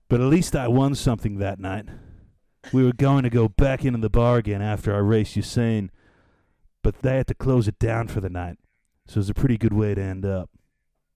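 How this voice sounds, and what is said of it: Imitates another person's voice. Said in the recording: “I need to know the voice ... You're giving up on the voice ... Do the accent.”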